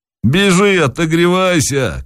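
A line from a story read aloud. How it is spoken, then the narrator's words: Shouted. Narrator (Russian): крикнул Захарыч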